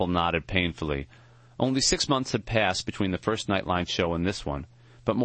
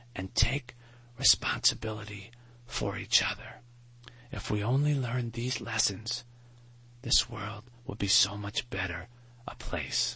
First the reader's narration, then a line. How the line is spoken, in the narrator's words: Maury whispered